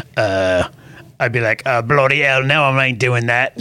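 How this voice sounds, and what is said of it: Put-on accent. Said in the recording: “Wonderful accent, by the way.”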